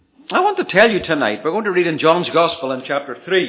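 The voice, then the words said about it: Non-local accent, a visitor's speech. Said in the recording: “I keep telling you I'm a stranger, and you can tell that by my accent”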